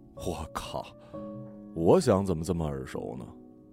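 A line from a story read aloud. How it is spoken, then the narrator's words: Inner muttering. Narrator (Chinese): 我心里嘀咕了一句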